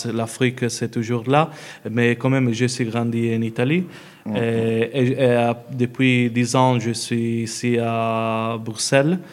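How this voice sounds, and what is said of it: Italian-accented French. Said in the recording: “tes origines italiennes, tu n'as même pas besoin de les dire. On les sent tout de suite. ... ton accent, bien entendu”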